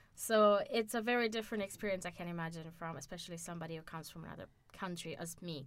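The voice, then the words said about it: American-sounding accent. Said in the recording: “I sound American”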